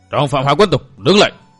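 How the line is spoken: Roar. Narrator (Vietnamese): Tang Phó gầm lên

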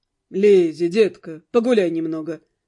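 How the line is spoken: Calm. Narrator (Russian): спокойно сказал

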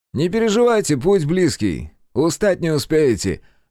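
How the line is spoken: Cheerful encouragement. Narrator (Russian): весело подбодрил всех Джейкоб

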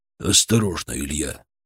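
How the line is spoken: Quiet tense voice. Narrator (Russian): Голос Шаповалова прозвучал тихо, но напряженно

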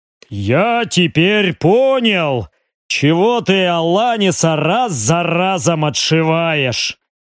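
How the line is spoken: Deep bass voice. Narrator (Russian): пробасил он

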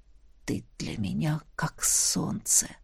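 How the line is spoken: Whisper. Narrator (Russian): прошептал он

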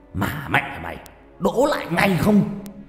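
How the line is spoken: Distant shout. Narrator (Vietnamese): Giọng ông thầy Trà lại hét vọng ra

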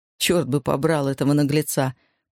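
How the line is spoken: Grumble. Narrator (Russian): проворчал Майк

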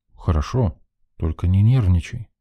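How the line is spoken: Calm. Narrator (Russian): спокойным тоном произнес я

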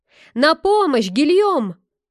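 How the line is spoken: Warrior shouting mid-fight. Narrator (Russian): воин, дравшийся с поваром, закричал

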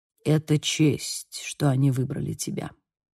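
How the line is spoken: Mutter. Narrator (Russian): пробормотал он

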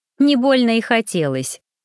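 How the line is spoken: Snort, suppressed laughter. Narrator (Russian): хмыкнула я, проглотив рвавшийся с губ смешок

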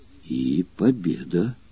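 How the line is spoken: Dazed astonished mutter. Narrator (Russian): пробормотал еще не вполне пришедший в себя от изумления

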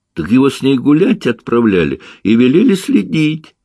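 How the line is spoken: Laughing boy. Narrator (Russian): засмеялся мальчик

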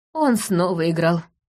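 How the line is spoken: Sigh. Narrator (Russian): вздохнул Орос

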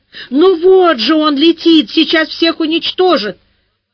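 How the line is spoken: Hysterical female scream. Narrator (Russian): Какая-то женщина истерически завопила

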